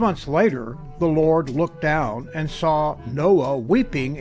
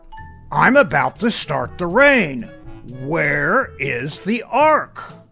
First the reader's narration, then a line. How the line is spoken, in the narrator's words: he roared